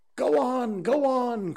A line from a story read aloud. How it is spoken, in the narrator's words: cried the voices